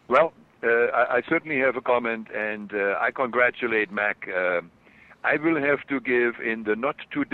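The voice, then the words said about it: German accent. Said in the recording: “my German accent comes through.”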